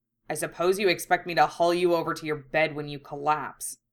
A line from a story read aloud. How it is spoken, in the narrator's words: he snapped, giving in ungraciously